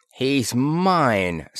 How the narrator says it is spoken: snapped Mara

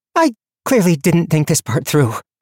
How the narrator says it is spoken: she panted

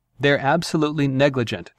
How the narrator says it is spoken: Jenkins said

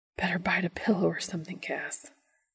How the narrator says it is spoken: Dean whispers

